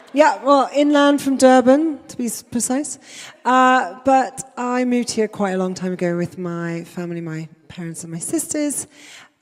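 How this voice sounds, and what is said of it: South African accent. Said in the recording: “You may notice a bit of an accent. I'm from South Africa.”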